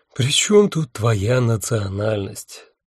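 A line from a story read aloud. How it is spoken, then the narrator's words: Sighing. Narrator (Russian): вздохнул Аллах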